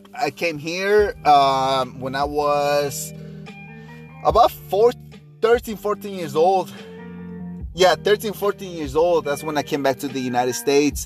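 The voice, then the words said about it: Slight foreign accent. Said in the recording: “I do have a slight accent, and I'm aware of that”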